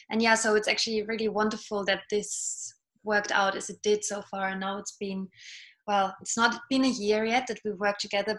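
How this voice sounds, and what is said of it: British-sounding accent. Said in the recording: “you sound like you have a British accent.”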